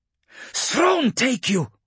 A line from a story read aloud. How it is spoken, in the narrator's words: screamed